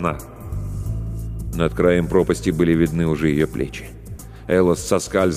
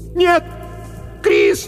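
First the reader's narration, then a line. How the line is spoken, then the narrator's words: Shouting into the darkness. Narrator (Russian): Закричала она в темноту позади себя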